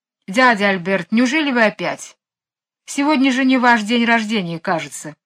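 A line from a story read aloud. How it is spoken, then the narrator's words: Displeased tone. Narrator (Russian): Мэри Поппинс недовольным тоном сказала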